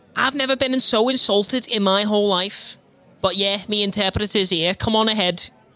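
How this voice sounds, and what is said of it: Strong Liverpool English accent. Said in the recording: “I can't understand your accent ... I'm from England, Liverpool”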